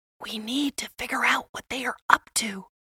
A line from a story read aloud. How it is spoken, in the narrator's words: Max whispered to Mia